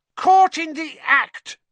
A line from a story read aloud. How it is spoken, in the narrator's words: Ernie yelled, his face stark white